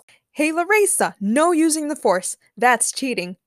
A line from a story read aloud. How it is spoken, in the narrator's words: Julie shouted